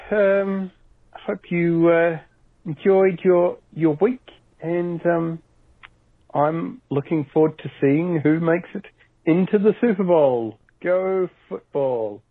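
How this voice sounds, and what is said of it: New Zealand accent. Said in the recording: “he's from New Zealand ... he's got that lovely accent.”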